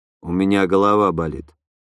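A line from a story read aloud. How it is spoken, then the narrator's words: Gloomy reply. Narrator (Russian): мрачно ответил я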